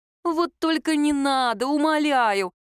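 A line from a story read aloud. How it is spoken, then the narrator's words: Moaning. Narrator (Russian): простонала Лера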